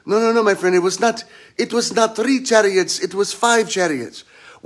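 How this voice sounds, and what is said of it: Put-on foreign accent. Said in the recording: “I'm doing the accent”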